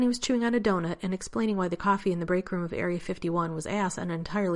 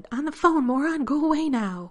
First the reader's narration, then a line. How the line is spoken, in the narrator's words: Rodney shouted